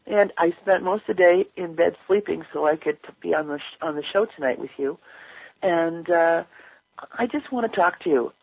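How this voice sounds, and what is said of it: Slightly congested, sick-sounding voice. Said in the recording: “As you can tell, I've got a little bit of a cold going on today.”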